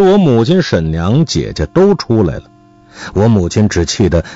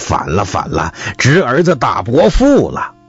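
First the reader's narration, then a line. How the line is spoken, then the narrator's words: Wild yelling. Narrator (Chinese): 乱嚷起来，说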